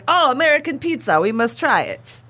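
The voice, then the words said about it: Generic put-on European accent. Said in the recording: “Is that your generic European accent? ... Well, yeah. ... I don't know what I was trying to channel there.”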